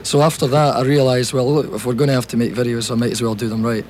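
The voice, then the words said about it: Scottish accent. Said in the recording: “we can tell from the accent here, you're from Scotland”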